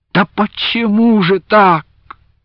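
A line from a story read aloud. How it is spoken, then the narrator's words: Near groan. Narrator (Russian): едва не застонал Андрейка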